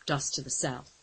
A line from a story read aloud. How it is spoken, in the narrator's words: he reported grimly